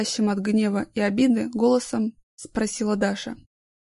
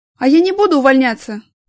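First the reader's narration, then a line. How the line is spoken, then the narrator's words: Angry shout. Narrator (Russian): Зло выкрикнула Даша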